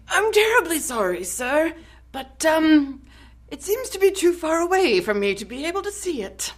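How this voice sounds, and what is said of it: Put-on character voice. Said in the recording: “Why are you making me do his voice?”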